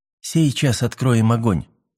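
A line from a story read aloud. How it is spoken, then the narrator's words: Quiet. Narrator (Russian): тихо сказал Мэлори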